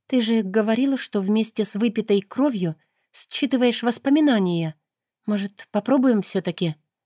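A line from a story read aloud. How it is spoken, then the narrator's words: Uncertain suggestion. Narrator (Russian): предложила неуверенно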